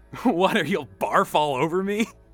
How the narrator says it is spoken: Danny giggled

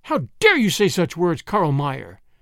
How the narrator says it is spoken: exclaimed

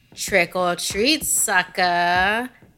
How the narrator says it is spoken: he taunted

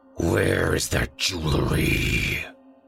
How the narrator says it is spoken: he snarled

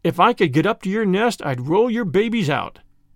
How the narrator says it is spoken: said Rikki Tikki

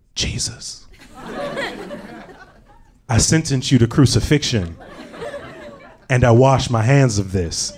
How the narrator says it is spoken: I whispered out

